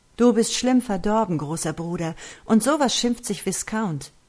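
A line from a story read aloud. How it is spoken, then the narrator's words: Called out. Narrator (German): rief Joel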